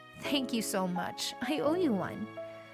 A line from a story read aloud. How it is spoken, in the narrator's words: whispered in his ear